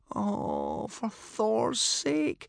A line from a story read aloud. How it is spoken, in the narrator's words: groaned Hiccup miserably